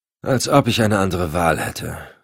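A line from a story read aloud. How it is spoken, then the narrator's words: Deep heartfelt sigh. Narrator (German): seufzte die Gefragte aus tiefster Seele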